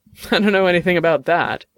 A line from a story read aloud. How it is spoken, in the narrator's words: Dex said, laughing at his friend's choice of words